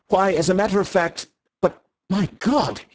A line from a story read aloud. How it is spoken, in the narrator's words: he cried out suddenly, like a man who sees an explosion a long way off